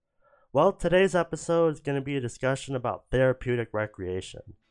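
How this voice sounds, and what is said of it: Congested, stuffy voice. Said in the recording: “my allergies are getting the best of me. You can probably hear it in my voice”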